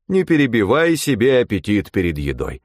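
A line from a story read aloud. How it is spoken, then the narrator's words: Stern metallic imitated voice. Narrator (Russian): отозвался суровым металлическим голосом отца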